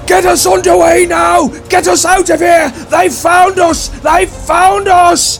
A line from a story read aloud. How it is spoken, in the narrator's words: he screams at Carlos, he screams at his men